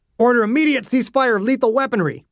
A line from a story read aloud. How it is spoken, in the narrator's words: Ogden barked